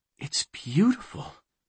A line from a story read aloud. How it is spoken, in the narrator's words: she breathed